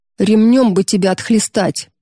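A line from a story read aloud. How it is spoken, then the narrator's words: Growled. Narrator (Russian): прорычал он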